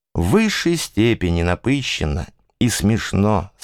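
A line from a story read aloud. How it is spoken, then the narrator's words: Plain. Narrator (Russian): сказал он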